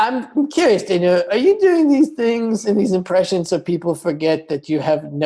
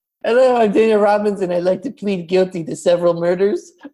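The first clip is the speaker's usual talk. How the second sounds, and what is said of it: Imitates another person's voice. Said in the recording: “I've been working on my impression of you ... I think it's pretty accurate”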